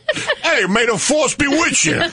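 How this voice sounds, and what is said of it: Brooklyn accent Star Wars line. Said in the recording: “do your Star Wars Brooklyn accent.”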